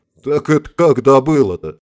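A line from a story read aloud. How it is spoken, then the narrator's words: Laughing. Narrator (Russian): рассмеялся Харитонов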